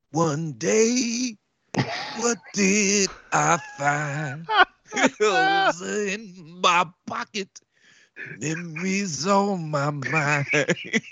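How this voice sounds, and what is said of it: Imitates another person's singing voice. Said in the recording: “That's a very good impression, sir. ... That's spot on.”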